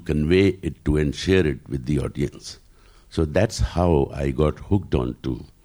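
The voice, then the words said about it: Deep voice. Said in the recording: “did you always have this deep voice ... Did you always have the deep voice”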